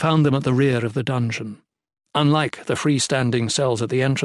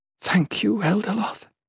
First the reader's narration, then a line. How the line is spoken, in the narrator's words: she whispered